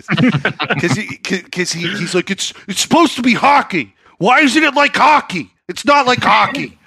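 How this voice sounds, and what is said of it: Angry dad voice. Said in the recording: “That's a great angry dad voice.”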